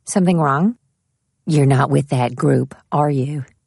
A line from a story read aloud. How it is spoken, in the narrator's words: said the woman quietly